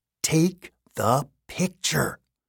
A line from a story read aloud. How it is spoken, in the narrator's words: Sam said through gritted teeth